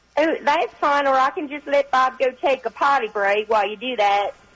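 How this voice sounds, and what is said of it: Attempted Southern US accent. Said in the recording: “I think your accent is somewhere between Eastern Tennessee and North Georgia... I tried really hard. I've always wanted to be Southern. That's what I was aiming for, but obviously I didn't do it very close.”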